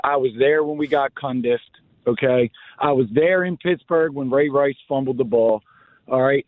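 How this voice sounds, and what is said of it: Slightly hoarse voice. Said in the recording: “my voice is a little hoarse from Sunday”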